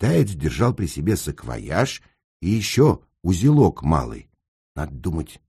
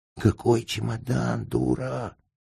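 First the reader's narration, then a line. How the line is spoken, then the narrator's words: Contemptuous drawl through teeth. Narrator (Russian): скривив губы, процедил Сенька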